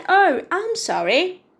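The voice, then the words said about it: Faked British accent. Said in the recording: “with the British accent that I'm faking here.”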